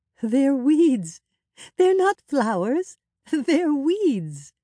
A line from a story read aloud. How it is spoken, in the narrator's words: said, still laughing